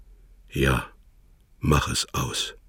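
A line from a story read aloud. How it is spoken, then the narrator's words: Curt hoarse reply. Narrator (German): Herr Wörlock gab knapp und heiser zurück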